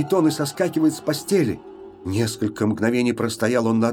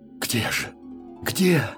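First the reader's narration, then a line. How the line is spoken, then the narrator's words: Whispered. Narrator (Russian): шептали его губы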